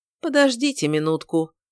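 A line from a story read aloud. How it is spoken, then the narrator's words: Cold. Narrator (Russian): холодно произнес он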